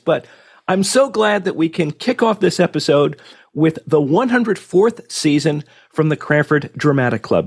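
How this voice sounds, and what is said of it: Raspy, unsteady sick voice. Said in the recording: “my voice sounds a little bit different on this episode, it's because I have been fighting COVID this week, so my voice is a bit raspy and kind of all over the place”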